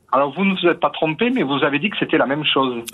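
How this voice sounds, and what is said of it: Slight Aveyron regional French accent. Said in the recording (French): “Je sens un petit accent ... je suis un Aveyronnais convaincu”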